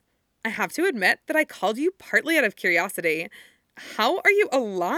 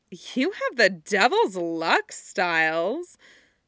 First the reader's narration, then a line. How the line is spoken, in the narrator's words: she says in an admiring tone